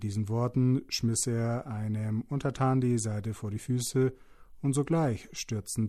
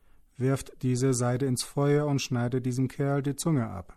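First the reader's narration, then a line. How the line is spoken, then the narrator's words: Angry shout. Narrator (German): rief er zornig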